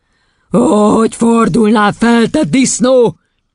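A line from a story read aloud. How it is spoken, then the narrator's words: Angry yelling. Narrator (Hungarian): üvöltötte Doron kisasszony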